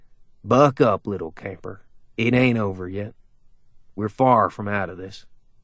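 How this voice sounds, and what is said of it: Exaggerated drawl. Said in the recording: “in that exaggerated drawl”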